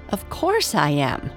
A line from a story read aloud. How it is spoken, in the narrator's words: laughed Princess Winsome